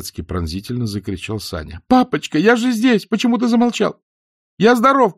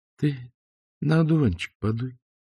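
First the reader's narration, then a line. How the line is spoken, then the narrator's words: Quiet. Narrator (Russian): тихо сказал Исаев-младший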